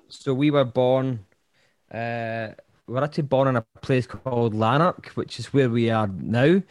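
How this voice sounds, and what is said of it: Scottish accent. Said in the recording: “I think the accent's a giveaway, but we are Scottish.”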